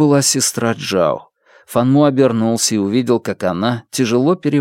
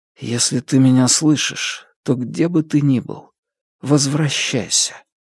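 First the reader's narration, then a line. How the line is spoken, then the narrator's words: Whispered. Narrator (Russian): Фан Му прошептал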